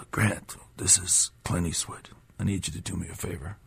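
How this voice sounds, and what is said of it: Bad Clint Eastwood impression. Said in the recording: “That is the worst impression of him I've ever heard.”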